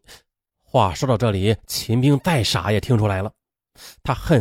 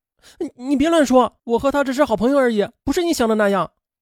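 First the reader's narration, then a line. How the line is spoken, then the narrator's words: Hurried, flustered. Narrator (Chinese): 苏林急忙解释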